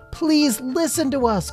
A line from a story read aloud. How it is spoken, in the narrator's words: cried Lila